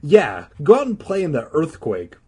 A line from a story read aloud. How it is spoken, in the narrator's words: Regina snapped